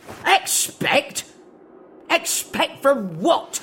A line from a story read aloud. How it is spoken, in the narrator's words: he bellowed